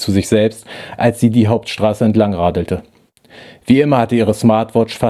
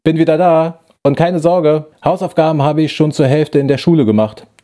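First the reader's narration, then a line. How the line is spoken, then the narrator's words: Booming voice down hallway. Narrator (German): donnerte ihre Stimme in den langen Flur hinein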